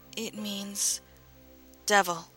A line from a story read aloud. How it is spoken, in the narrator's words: she stammered